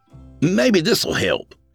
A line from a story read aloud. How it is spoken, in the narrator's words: said eagerly